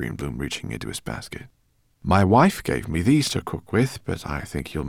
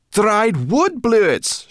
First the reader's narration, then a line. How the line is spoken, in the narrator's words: she cried